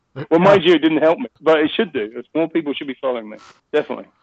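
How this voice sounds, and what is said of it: Classy-sounding accent. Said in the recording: “because of my accent ... At least he sounded classy while doing it ... whatever he says sounds classy”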